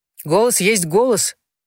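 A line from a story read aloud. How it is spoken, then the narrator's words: Loud, as to deaf person. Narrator (Russian): сказал Барта громко, обращаясь к ней, словно к глухой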